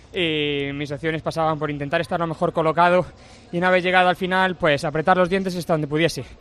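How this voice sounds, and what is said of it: Andalusian Spanish accent. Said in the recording (Spanish): “qué bien te queda desde Tokio el acento andaluz. Es precioso”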